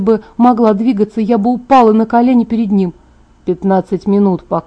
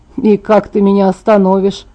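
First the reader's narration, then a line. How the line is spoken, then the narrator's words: Sarcastic, softened by smile. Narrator (Russian): язвительно спросил он, улыбаясь, смягчая свою колкость в мой адрес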